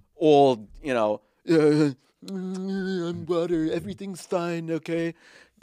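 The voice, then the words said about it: Impression of a politician. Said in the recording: “pretty good impression”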